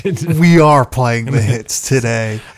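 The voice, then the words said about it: Over-the-top radio announcer voice. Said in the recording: “I don't normally talk like this. ... I'm just trying to be a little over the top. ... A little radio voice”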